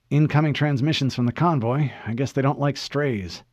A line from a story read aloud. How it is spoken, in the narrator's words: Pulaski muttered calmly